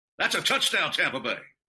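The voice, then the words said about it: Spot-on Gene Deckerhoff impression. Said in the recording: “your impersonation of Mitch Holtis or Gene Deckerhoff, which have been spot on, especially with Deckerhoff.”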